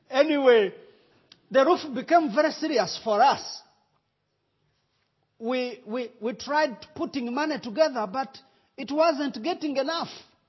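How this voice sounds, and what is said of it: Rwandan accent. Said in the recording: “do you understand Rwandan accent? ... Everybody understands my accent.”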